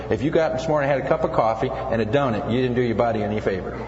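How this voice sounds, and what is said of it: Midwestern American accent. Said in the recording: “my Midwestern accent. I don't say breakfast right.”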